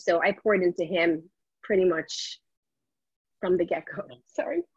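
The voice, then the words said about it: Emotional, choked-up voice. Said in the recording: “I get emotional.”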